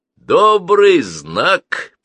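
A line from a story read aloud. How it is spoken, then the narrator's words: Booming boatswain. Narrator (Russian): прогудел боцман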